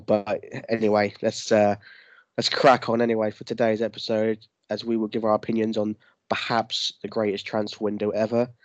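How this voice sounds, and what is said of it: Flat, lifeless, sick-sounding voice. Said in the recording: “why you sound dead ... I've got a cold as well. Pretty horrendous”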